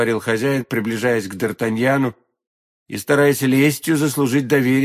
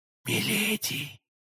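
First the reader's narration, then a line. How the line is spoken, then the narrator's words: Whisper. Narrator (Russian): прошептал Д'Артаньян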